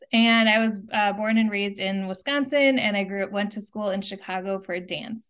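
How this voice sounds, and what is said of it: American accent. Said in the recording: “through the accent, you can guess that I'm from the States”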